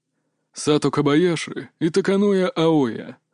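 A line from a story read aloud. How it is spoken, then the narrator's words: Quiet commentary. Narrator (Russian): начал тихо комментировать тренер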